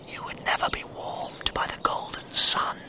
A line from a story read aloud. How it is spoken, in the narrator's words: whispered the air